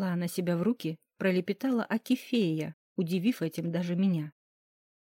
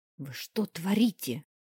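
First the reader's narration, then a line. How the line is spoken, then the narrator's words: Hissed. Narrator (Russian): прошипела ему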